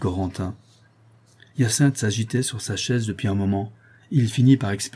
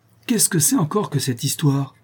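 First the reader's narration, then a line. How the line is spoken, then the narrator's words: Exclaimed. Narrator (French): s'écria-t-il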